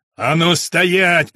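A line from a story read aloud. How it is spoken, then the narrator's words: Roared after someone. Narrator (Russian): проревел в спину уходящей фигуре Бергман Геринг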